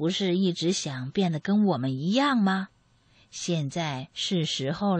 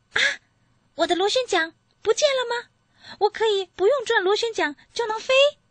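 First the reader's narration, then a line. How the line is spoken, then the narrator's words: Excited shout. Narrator (Chinese): 欧弟马上兴奋的喊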